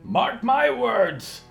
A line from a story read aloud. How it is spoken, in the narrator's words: Bosco screamed